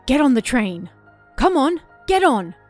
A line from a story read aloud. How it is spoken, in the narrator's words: screamed